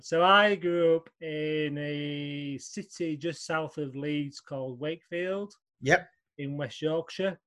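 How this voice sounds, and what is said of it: Northern English accent. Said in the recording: “you've got a northern accent”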